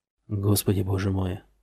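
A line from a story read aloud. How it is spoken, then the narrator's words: Muttering. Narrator (Russian): бормотал он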